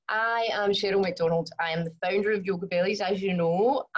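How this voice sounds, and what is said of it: Very strong Glasgow accent. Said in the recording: “I was born in Glasgow, as I'm sure you can also tell from my very strong accent.”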